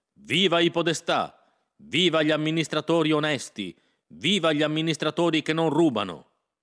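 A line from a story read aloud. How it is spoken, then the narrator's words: Shouted together. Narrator (Italian): gridammo come lui voleva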